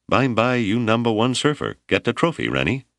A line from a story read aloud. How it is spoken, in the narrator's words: he laughed and said approvingly